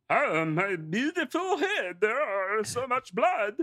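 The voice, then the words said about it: Rocco-style character voice. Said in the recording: “doing an impersonation of really, really big man, but in the Rocco voice”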